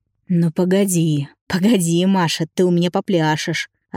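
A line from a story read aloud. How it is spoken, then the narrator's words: Growling. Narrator (Russian): рычал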